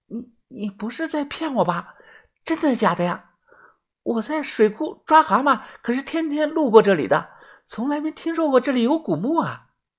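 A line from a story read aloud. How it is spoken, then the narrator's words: Speaking softly. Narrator (Chinese): 小声的说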